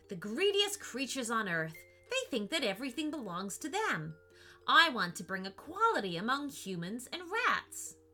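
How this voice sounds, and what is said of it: Angry, infuriated exclaiming voice. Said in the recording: “exclaimed in an infuriated voice”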